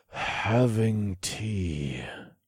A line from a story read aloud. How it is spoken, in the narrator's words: I said through gritted teeth